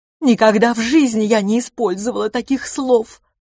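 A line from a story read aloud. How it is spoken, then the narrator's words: Sobbing. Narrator (Russian): всхлипывала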